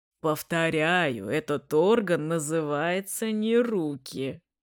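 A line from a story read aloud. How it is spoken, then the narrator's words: Friend laughing loudly. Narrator (Russian): хохотал друг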